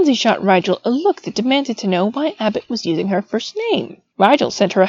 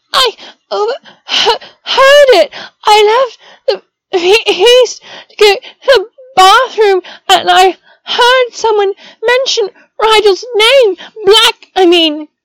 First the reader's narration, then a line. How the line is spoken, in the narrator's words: began crying in earnest once more, but she choked out